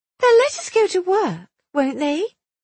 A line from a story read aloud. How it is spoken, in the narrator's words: Vera asked anxiously